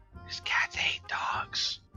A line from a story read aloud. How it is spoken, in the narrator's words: Tugum whispers to Azrael